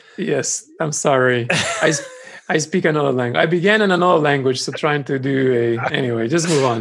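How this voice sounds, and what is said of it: Usual voice. Nothing is said of it.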